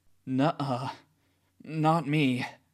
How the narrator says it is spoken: he moans

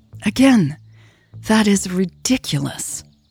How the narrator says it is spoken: Lucas sighed, clearly fed up

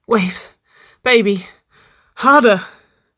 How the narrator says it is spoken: Nicole pleaded, her breath beginning to fall faster and shorter

